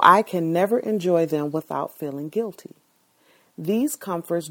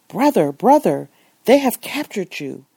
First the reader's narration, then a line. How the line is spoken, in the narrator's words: the excited Moroccan exclaimed